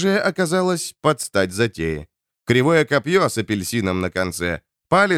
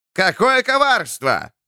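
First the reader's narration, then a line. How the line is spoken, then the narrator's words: Yelling jester. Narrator (Russian): орал скоморох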